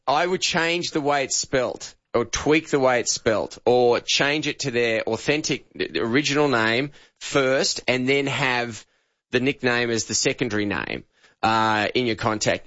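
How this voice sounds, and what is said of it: Australian accent. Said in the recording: “Australian accents are one of the hardest of any accent to understand ... your accent is really hard for us to program to”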